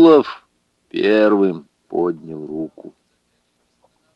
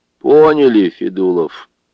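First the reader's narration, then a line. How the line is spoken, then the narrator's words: Gloomy. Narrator (Russian): мрачно сказал председатель райпотребсоюза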